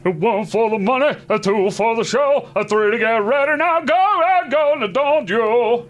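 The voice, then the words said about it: Sings imitating another person's voice. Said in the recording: “your best Elvis impersonation? ... Good enough.”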